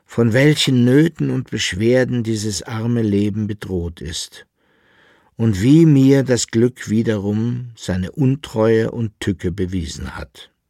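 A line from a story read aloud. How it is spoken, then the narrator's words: Weak lamenting voice. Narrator (German): klagte mit matter Stimme der Alchemist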